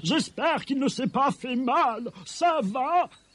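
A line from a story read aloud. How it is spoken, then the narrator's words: Called out. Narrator (French): lui cria-t-elle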